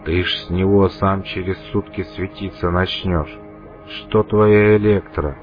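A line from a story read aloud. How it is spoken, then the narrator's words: Uncertain. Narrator (Russian): неуверенно произнес проводник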